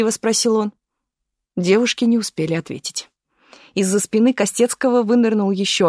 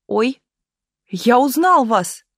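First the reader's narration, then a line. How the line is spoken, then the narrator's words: Shouted. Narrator (Russian): крикнул он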